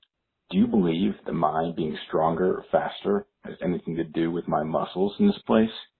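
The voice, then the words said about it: Impression of Morpheus from The Matrix. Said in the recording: “doing a little impression ... I'm Mobius from The Matrix”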